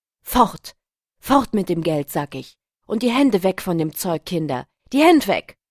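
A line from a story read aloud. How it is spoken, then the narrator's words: Trembling scream. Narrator (German): schrie er mit bebender Stimme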